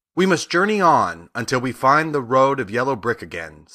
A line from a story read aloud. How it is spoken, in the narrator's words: said Dorothy